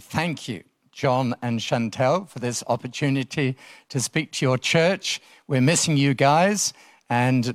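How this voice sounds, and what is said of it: English accent. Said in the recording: “as you can tell by my accent, originally from England”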